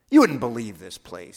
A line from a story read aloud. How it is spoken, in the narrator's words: he snorts